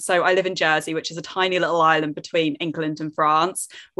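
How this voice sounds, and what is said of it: British accent. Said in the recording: “as you can tell from my accent, I'm not in the States or Canada. I'm over in Britain.”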